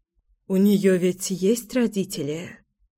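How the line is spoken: Whispered question. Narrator (Russian): шепотом спросила Мила

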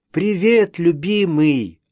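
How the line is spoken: Joyful. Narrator (Russian): радостно сказала Мэнли

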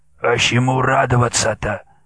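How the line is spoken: Indifferent, hoarse, cold-roughened voice. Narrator (Russian): Митя безразлично сказал простуженным хриплым голосом

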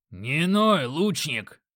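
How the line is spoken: Growl. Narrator (Russian): рыкнул Грок

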